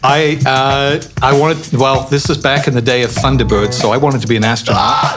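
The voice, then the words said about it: Mixed-up accent. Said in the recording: “It's definitely partly the accent. ... the mixed-up accent”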